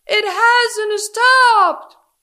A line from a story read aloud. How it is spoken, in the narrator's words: shouted Harold